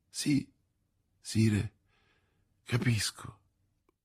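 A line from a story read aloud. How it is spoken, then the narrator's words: Stammering. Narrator (Italian): balbettò la regina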